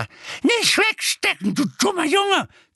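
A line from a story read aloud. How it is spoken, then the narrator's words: Shrieked. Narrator (German): kreischte sie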